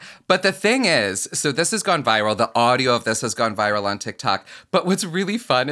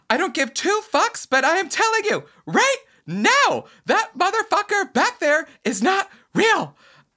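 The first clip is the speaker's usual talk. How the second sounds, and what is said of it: Yelling, imitates another person's voice. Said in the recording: “as she's like yelling ... That's my best impression of her”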